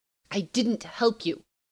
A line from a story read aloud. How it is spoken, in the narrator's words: she said, low and urgently